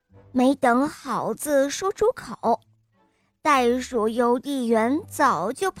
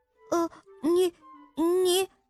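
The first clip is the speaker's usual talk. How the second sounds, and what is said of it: Timid, quiet, hesitant speech. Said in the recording (Chinese): “他只敢小声地说”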